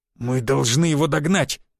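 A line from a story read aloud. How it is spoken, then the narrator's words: Through gritted teeth. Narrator (Russian): процедил Волгин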